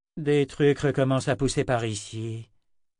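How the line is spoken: Irritated growl. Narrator (French): grogna la mort de Sith, de plus en plus agacée

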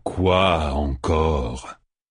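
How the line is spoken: Man growling. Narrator (French): grogna l'homme

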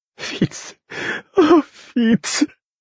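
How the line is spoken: Sobbing. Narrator (French): fit-elle en sanglotant

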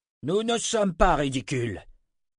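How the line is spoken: Spokesman roaring. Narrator (French): rugit un des porte-paroles

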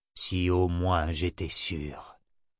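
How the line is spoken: Sighing. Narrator (French): soupira Nathan

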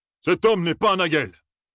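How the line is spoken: Roaring. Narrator (French): rugit Kouladin

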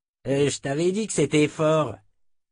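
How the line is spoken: Sneering. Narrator (French): ricana Morlaix

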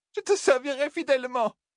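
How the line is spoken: Sobbing. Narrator (French): sanglota Liandrine

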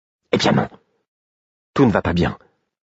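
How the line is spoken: Low-voiced retort. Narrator (French): rétorqua-t-elle à voix basse

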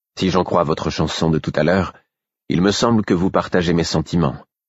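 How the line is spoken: Half-voiced. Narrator (French): dis-je à mi-voix

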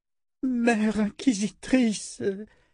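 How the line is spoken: Queen moaning, deathly pale. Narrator (French): gémit la reine, livide

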